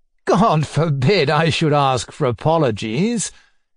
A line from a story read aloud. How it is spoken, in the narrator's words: cried, laughing